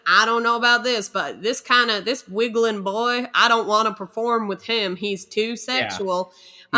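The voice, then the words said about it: Put-on Southern accent. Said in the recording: “almost like a Southern accent”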